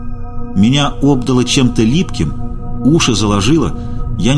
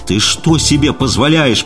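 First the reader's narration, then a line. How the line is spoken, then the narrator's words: Roar. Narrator (Russian): проревел он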